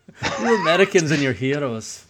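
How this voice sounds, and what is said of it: Poor put-on Scottish accent. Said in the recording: “what accent was that? That was Scottish. I can't do it. I hate voices.”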